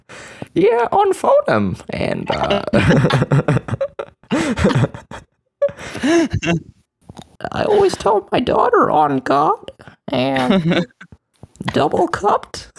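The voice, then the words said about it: Jordan Peterson impression. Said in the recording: “doing the voice ... if you're not even good at the impression, like me”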